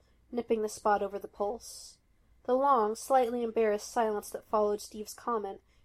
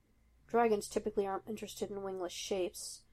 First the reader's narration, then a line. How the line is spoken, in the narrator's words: Tony muttered, eyes lowered and blush growing dark